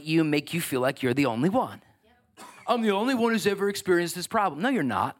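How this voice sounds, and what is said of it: Sarcastic put-on voice. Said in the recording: “put on that sarcastic voice”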